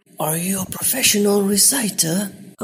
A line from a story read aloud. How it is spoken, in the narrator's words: a voice whispered